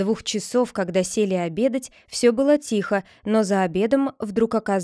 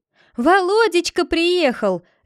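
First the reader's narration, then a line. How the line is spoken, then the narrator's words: Loud wailing shout. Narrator (Russian): завопила Наталья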